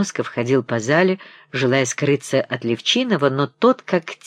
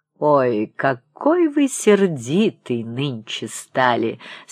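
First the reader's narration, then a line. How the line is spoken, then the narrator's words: Laughing. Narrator (Russian): смеялся он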